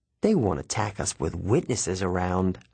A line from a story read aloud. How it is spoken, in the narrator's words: I said